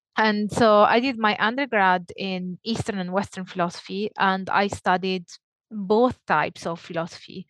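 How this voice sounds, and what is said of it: Italian accent. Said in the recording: “if that wasn't clear from my accent, I'm Italian”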